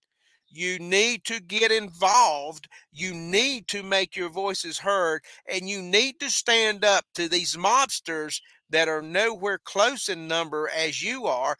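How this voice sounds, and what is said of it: Rural American country accent. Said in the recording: “a country boy like me ... You may not like my accent. You may not like the way that I pronounce my words”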